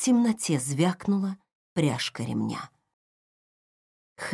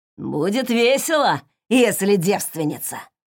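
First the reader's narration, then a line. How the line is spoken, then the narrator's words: Smirking snort. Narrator (Russian): хмыкнул тот же голос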